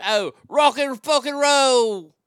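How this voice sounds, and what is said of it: Put-on British accent. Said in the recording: “in my best British accent.”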